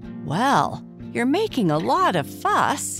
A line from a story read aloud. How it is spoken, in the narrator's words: exclaimed the boy